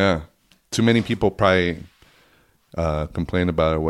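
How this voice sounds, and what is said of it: Usual voice. Nothing is said of it.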